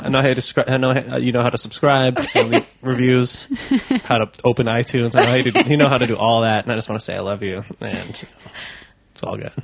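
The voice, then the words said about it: New Jersey accent. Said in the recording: “for half of that you had a New Jersey accent”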